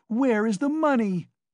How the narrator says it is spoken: she cried

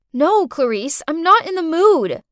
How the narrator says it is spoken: I shouted

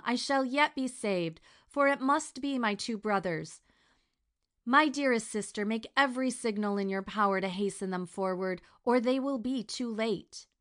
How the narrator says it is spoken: exclaimed Fatima

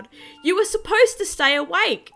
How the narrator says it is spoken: screaming out loud

